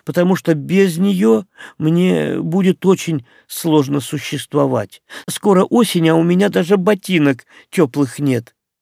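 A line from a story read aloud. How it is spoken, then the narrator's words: Uncertain. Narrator (Russian): неуверенно проговорила Лаура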